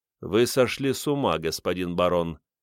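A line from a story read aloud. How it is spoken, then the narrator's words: Devil's cold reply. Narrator (Russian): Дьявол холодно ответил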